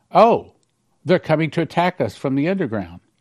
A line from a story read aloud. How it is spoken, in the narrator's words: I exclaimed